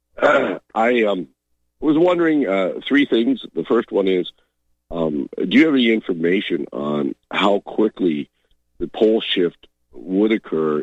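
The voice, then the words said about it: Voice sounding sick, under the weather. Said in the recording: “A little bit under the weather here, as you can tell from my voice”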